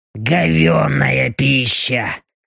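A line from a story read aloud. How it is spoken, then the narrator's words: Displeased grumble. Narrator (Russian): недовольно буркнула Белочка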